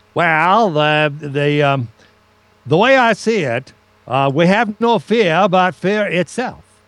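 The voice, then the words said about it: Imitated New England accent. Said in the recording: “I played FDR ... I kind of did a little bit of a New England accent”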